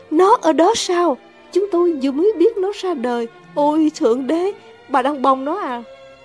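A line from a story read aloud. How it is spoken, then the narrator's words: Excited exclamation. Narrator (Vietnamese): Tử tước kêu lên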